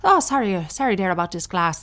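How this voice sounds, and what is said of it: Poor put-on Irish accent. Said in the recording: “Why is my Irish accent getting worse and worse? ... Nope, it's not working.”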